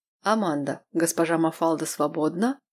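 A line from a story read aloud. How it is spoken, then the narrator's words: Low, very soft female voice. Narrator (Russian): Довольно низкий для женщины голос прозвучал очень мягко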